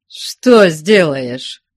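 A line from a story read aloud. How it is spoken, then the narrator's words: Defiant question. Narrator (Russian): вызывающим голосом спросил Потап Максимыч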